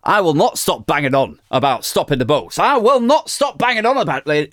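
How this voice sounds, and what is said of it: Northern English accent impression of Lee Anderson. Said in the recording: “Lee Anderson ... Shall I do the Northern accent? Is that problematic? Oh, fuck, I'll do it.”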